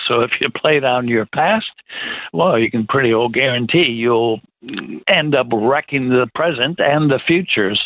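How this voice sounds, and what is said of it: American accent. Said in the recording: “they can hear your American accent”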